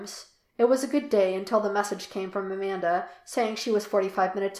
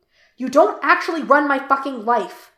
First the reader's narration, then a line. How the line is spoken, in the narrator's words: Jim snarled from where he was packing in the bedroom